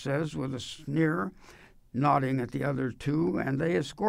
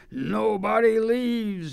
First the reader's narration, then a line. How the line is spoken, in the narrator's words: he bellows